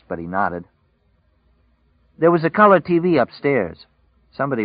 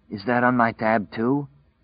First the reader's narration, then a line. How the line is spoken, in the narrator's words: Larry asked hoarsely